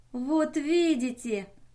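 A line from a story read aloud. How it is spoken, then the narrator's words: Joyful exclamation. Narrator (Russian): радостно воскликнула Мэри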